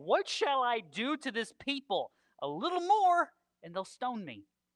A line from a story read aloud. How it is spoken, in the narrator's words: Moses cried out to the Lord saying